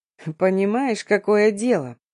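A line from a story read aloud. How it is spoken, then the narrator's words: Indifferent, sighing. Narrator (Russian): Хмыкнул Дамир, вздохнув, начал перечислять равнодушным голосом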